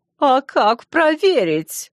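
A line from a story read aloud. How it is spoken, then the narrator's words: Creaky voice. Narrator (Russian): проскрипела Атави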